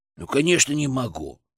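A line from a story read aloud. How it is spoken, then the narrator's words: Snorting. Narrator (Russian): фыркнул он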